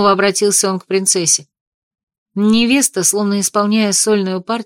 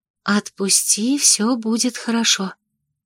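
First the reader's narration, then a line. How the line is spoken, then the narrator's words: Doubtful whisper. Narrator (Russian): прошептала она Дебре, не особенно надеясь на успех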